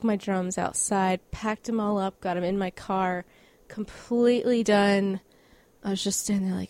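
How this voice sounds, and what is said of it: Usual voice. Nothing is said of it.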